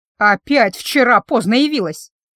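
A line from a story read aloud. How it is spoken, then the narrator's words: Displeased grumble, heavy sigh. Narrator (Russian): За недовольным ворчанием последовал тяжелый вздох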